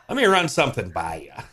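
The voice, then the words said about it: Imitates another person's voice. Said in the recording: “That's pretty good imitation right there.”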